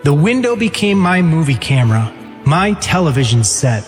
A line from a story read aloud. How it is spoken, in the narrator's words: he said